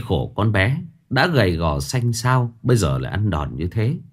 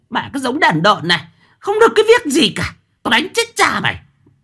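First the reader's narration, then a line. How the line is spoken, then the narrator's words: Hissing shriek. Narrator (Vietnamese): mụ lại rít lên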